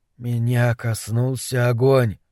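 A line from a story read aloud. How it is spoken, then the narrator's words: Whisper. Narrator (Russian): прошептал Дебона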